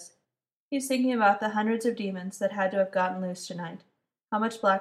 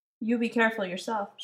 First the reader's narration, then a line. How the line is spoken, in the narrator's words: she says